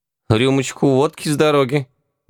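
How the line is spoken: Hesitant offer. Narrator (Russian): неуверенно предложил Яга

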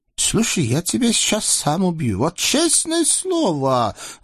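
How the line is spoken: Thoughtful promise, sultan. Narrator (Russian): задумчиво пообещал султан

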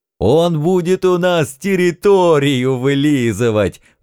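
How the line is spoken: Ecstatic howling devils. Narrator (Russian): восторженно взвыли черти

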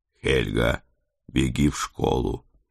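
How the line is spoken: Quiet request. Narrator (Russian): тихо попросил я

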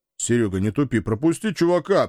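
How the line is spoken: Sharp shout. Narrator (Russian): прикрикнул второй

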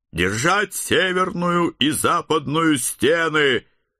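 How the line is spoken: Loud command. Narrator (Russian): громко приказал

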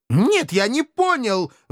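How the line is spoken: Indignant howl. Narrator (Russian): возмущенно взвыл славный потомок рода Эльгенхауэр

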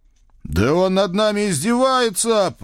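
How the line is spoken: Righteous roar. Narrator (Russian): праведно взревел я

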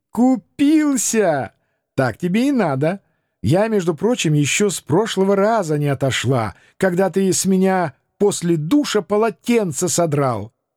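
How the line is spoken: Familiar voice, laughing announcement. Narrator (Russian): знакомый голосок, заливисто рассмеявшись, объявил

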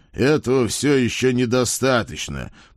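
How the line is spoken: Dismissive snort. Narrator (Russian): пренебрежительно фыркнул он

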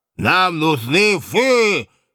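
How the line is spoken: Menacing roar, offended barman. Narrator (Russian): Грозно проревел справедливо оскорбленный бармен

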